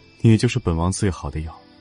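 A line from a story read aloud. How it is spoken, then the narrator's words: Sighing exclamation. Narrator (Chinese): 楚天却呼出一口浊气，感叹一声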